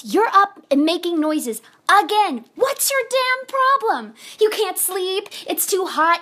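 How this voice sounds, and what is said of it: Loud, raised angry voice. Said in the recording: “Don't tell me to lower my voice.”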